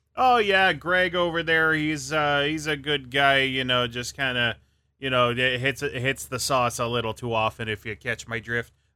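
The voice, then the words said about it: Put-on Wisconsin accent. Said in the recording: “Wisconsin? ... It's just kind of the go-to accent that I go for.”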